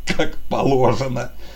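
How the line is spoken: Wheezing, choking with laughter. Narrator (Russian): давясь от смеха, просипел один из бойцов

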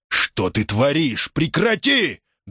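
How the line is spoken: Barked shout. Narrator (Russian): гаркнул Борис

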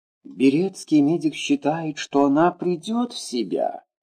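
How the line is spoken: Plain. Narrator (Russian): сказала Таисия Никитична

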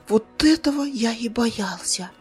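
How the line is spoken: Whispered. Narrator (Russian): прошептал Зар

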